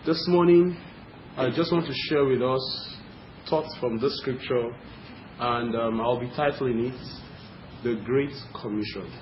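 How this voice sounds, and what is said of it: Nigerian English accent. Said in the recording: “I hope you can understand my accent. I know I'm a Nigerian.”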